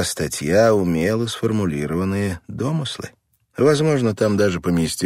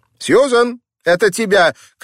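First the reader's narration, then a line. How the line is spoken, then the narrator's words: Mother's call. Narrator (Russian): крикнула мать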